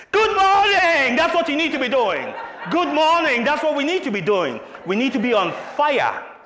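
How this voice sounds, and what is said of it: Loud shouting delivery. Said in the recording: “I'm shouting and screaming”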